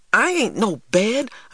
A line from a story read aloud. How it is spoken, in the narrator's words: I exclaimed as his hands fell on me